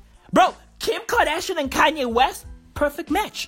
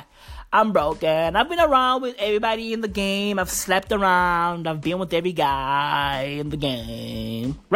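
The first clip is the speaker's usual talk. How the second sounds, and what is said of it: Imitates a woman with vocal fry. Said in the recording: “With the fucking vocal fry.”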